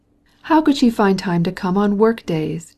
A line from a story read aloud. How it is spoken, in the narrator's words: he exclaimed